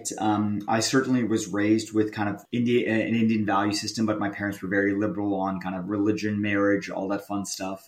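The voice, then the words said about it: American accent. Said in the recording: “this guy speaks with an American accent”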